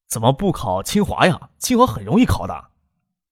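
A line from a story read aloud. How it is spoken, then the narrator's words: Disappointed sigh. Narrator (Chinese): 忍不住失望的叹了一口气 说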